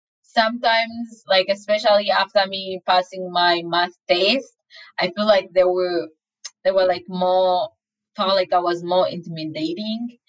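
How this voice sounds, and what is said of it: Thick foreign accent. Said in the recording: “You have a thick accent.”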